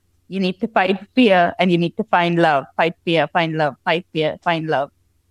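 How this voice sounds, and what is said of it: Thick Indian accent. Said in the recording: “I've got this thick Indian accent. It's going to sound weird on a podcast.”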